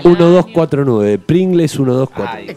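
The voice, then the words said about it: Radio announcer voice. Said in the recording (Spanish): “voz de locutor”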